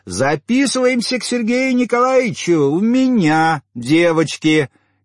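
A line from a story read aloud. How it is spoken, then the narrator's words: Piercing loud shout. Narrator (Russian): крикнула гренадерша так, что Карун поморщился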